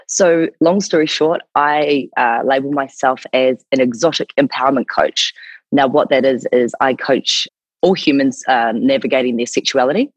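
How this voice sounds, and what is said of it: New Zealand accent. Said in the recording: “my accent is from New Zealand”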